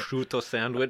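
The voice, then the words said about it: Botched Italian accent, sounding Russian. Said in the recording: “They switch to the Italian accent ... I can't do the accent properly. I think I just launched into Russian there by accident.”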